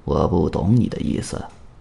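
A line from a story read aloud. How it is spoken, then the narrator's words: Deliberately lowered voice. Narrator (Chinese): 神秘人装傻，用刻意压低的嗓音说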